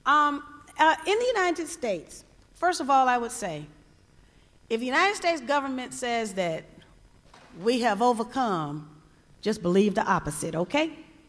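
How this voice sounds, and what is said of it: Southern US accent. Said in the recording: “I'm from the South, I'm a proud Southerner, love my Southern accent”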